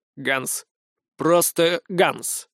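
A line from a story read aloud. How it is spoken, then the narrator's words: Clipped, heavy accent. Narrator (Russian): с мощным акцентом отчеканил Иоганн Рокфеллер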